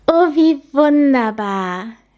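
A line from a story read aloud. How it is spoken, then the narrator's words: Very loud joyful shout. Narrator (German): rief Linny ganz laut in die Welt hinaus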